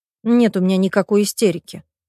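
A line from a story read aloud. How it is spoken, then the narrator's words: Grumbling mutter. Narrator (Russian): буркнула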